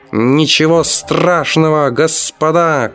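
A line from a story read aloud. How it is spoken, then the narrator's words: Shouting. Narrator (Russian): кричал Винис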